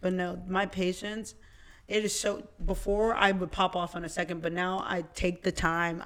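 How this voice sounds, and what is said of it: Hoarse, fading voice. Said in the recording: “I'm losing my voice a little bit.”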